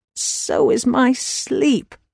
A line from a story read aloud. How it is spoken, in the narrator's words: mumbled Tess, pulling the covers back over her head